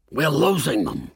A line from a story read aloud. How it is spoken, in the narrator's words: Tony said to me in an irritated tone